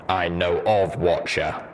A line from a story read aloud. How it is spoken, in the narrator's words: Steelhooves intoned